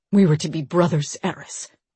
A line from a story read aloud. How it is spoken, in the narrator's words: Deimos said